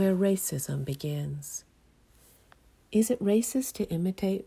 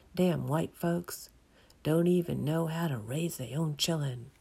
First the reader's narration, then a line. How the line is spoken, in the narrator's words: she muttered under her breath